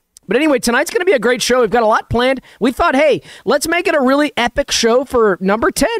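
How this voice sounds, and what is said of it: Deeper, rough under-the-weather voice. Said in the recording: “I am feeling a little under the weather. You might hear my voice is a little deeper and nastier.”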